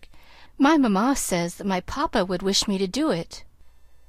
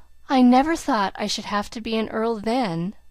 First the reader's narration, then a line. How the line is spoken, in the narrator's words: remarked Cedric with a sigh